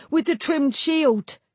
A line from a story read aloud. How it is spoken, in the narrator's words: Neth shrieked